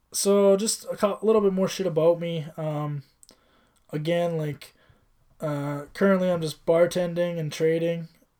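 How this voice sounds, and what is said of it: Voice giving out, strained. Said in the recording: “i'm losing my voice”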